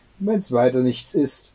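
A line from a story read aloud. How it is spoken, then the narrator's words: Plain sexton answering. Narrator (German): antwortete der Küster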